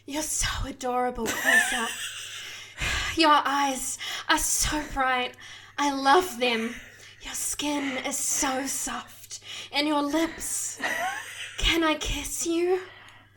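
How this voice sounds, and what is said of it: Breathy, intimate voice. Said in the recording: “She slithers on top of him and speaks in a breathy voice.”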